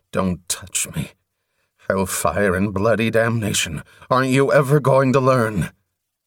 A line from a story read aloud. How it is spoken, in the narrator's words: he groaned